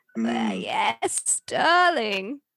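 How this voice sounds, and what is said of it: Imitated voice with vocal fry. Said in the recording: “my impression of her ... her very particular vocal fry”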